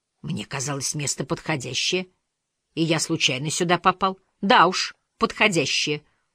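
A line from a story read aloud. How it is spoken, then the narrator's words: Stern reproach. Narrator (Russian): укорила она строго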